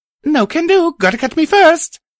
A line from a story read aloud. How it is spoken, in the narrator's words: Sorrow replied happily